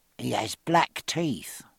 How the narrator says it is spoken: she added in a low tone

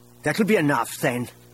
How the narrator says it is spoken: Isolde said angrily

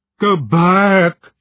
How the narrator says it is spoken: wailed

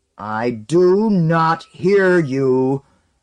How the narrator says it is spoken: Wold thundered, his face purple and his eyes watering

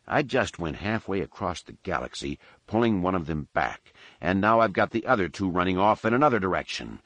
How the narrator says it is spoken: he muttered through gritted teeth

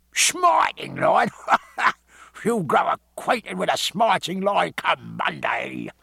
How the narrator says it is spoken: said awkward with his rare grating laugh

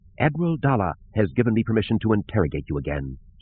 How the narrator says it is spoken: said coldly

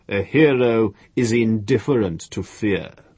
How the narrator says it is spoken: the master said, jeering

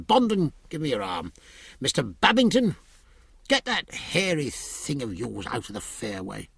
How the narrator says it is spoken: said testily

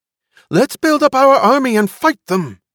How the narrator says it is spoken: a woman cried in a shrill voice

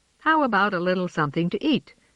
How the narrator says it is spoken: said James cheerfully

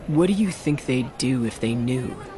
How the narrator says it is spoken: murmured

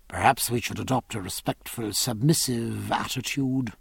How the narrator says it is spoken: murmured Stephen

